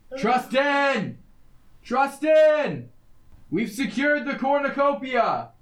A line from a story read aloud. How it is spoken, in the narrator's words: I'm yelling